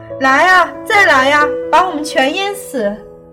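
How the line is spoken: Furious loud shouting. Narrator (Chinese): 你激进狂怒，大声叫嚣

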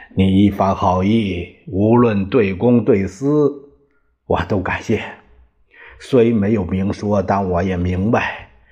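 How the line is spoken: Chuckling. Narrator (Chinese): 张学良呵呵的笑起来

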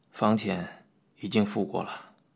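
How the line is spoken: Low voice. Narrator (Chinese): 那个人…在黑暗中低声的说道

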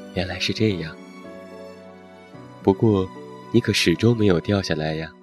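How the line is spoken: Marveling sigh. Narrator (Chinese): 星星 感叹道

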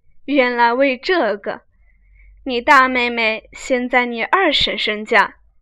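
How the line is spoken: Laughing. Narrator (Chinese): 邢夫人笑道

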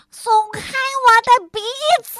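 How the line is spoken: Shouting. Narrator (Chinese): 恶作剧先生又叫起来

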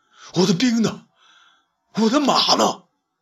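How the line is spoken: Shouting loudly. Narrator (Chinese): 他 开口大叫

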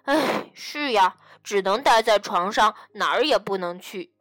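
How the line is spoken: Sighing. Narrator (Chinese): 艾迪也叹了口气说

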